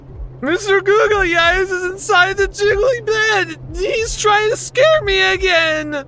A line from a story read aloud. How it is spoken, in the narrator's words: He said with a sobbing voice